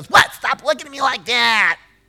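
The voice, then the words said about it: Imitates another person's voice. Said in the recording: “That was a good impersonation. That was exactly what she did. I got that part right.”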